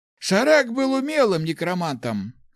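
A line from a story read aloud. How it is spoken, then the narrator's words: Snorting. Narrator (Russian): хмыкнул Ларс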